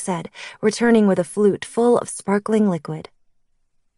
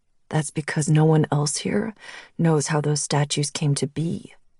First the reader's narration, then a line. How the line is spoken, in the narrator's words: he said, his voice low